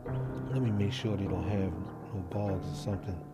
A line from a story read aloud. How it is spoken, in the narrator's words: Kyle whispers